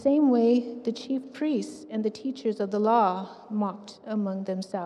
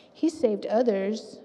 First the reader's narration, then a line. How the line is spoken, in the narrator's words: said